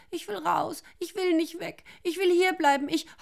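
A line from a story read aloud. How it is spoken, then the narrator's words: Wailing. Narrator (German): jammerte Rosa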